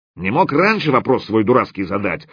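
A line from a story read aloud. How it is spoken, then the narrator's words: Angry snapping. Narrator (Russian): зло огрызнулся Стопка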